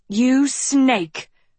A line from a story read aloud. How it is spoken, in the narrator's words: Agatha hissed